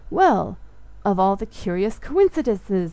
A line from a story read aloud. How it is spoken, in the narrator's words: I exclaimed